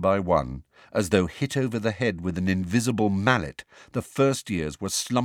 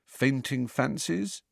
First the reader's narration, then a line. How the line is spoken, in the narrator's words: Harry suggested quietly